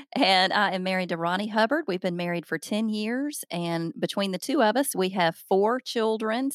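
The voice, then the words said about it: Southern US accent. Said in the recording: “I'm obviously from the South ... that Southern accent ... I can't hide it very well”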